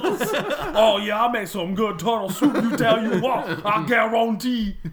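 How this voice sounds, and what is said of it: Exaggerated put-on regional accent. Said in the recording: “the accent you're doing is incredibly, incredibly insensitive to somebody”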